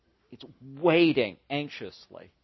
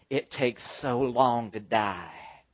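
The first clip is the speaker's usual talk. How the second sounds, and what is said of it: Put-on Southern accent. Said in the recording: “in a very distinct southern accent”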